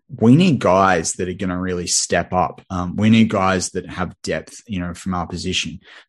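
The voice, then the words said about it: Australian accent. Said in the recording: “I'm an Aussie. You know that by the accent”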